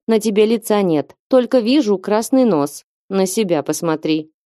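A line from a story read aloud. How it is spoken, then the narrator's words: Gruff but warmly brotherly. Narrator (Russian): буркнул Гуннар, чувствуя, что в кои-то веки рад сбросить непроницаемую маску холодного главы дома стражей и побыть просто братом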